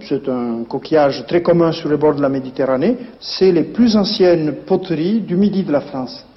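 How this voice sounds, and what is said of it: Southern French Perpignan accent. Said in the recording (French): “son bel accent ... l'accent de Perpignan”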